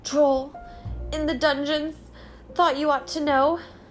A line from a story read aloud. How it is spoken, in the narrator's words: gasped